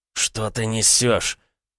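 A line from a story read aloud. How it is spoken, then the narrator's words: Through gritted teeth. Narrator (Russian): Процедил Власов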